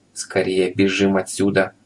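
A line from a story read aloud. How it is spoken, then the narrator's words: Whisper. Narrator (Russian): шепнул Субастику господин Пепперминт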